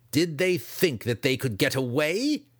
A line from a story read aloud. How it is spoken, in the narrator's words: Dinan roared